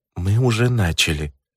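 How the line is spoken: Quiet. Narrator (Russian): тихо сказала Ивет

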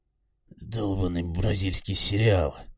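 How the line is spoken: Mutter. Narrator (Russian): бормотал

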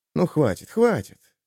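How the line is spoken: Barely audible whisper. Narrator (Russian): едва слышно шепнул Ярик

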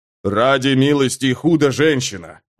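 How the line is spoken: Growled. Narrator (Russian): прорычал он

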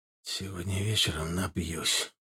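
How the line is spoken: Tired inner thought. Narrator (Russian): устало подумал ЦРУшник

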